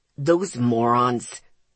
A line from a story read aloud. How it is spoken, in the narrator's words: Zeke growled